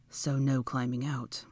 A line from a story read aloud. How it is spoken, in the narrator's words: he muttered